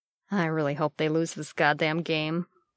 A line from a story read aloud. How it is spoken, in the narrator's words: Bucky muttered